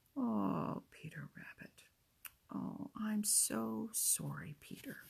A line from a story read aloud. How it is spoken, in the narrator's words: whispered